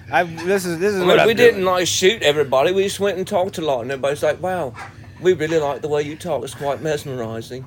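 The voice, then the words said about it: British accent. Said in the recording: “I'm picking up your accent. It sounds so fun.”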